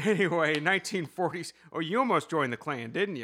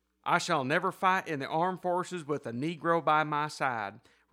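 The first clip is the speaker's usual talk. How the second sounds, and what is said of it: Reads a quote in put-on accent. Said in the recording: “I love the accent, by the way.”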